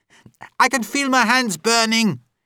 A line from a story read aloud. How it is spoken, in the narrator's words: he shouted